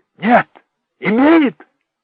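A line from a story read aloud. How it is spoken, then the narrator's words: Shouted. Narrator (Russian): закричал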